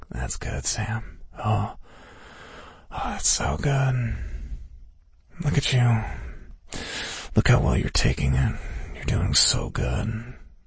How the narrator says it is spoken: He was muttering under his breath, saying

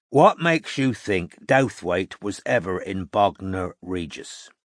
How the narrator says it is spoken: Strike asked, slowly and clearly

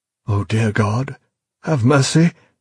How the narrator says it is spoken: he gasped, realization dawning, a realization more sickening than the pain

